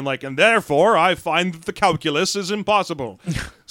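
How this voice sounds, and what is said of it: Pompous British accent. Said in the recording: “I'm giving him a pompous British accent.”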